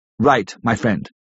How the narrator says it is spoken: said

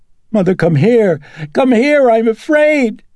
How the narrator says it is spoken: Reagan screaming

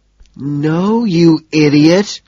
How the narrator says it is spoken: she groans

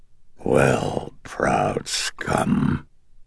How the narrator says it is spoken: the demonic voice croaked

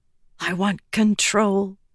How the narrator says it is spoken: whispered

